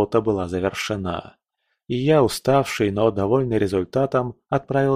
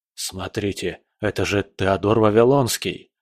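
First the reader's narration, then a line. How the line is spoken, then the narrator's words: Whispered. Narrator (Russian): прошептал кто-то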